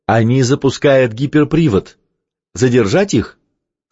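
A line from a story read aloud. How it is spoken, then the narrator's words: Plain. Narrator (Russian): спросил Томми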